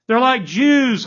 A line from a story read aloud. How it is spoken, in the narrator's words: Hans yelled back